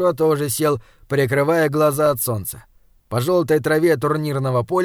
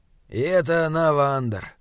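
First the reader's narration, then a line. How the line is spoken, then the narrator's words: Grumbling. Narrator (Russian): проворчал Изгримнур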